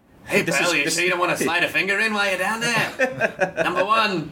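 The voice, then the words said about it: Regis Philbin impression. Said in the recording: “doing an impression of Regis Philbin”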